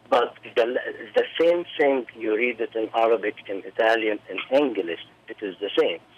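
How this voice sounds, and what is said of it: Non-native accented broken English. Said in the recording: “my broken English, my accent”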